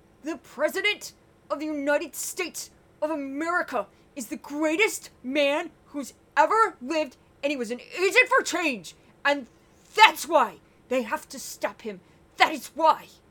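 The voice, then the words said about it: Loud Stephen Miller impression. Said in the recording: “a quick Stephen Miller impression ... I'm going to have to pull away from the mic because it's kind of loud”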